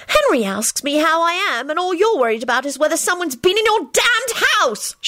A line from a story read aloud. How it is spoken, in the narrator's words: she shrieked